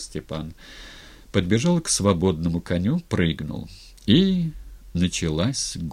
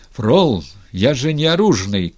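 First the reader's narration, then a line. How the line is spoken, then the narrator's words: Shout. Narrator (Russian): крикнул Степан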